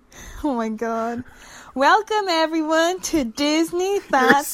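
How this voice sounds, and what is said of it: Put-on Southern US accent. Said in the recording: “You're Southern again.”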